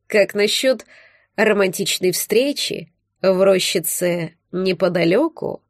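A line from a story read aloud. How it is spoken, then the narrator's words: Velvety voice. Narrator (Russian): Бархатным голосом предложил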